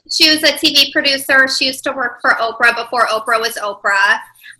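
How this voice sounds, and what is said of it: Chicago accent. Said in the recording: “The Chicago accent has come back ever since I moved back from New York.”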